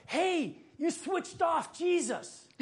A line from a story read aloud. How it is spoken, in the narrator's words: one of the shepherds yelled out